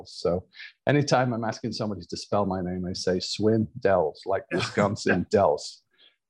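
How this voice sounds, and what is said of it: Northern English accent. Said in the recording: “Where I'm from in Northern England, we have a very specific accent”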